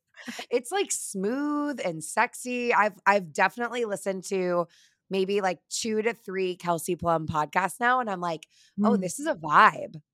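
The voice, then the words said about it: Slightly raspy voice. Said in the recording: “I admittedly am a little raspy”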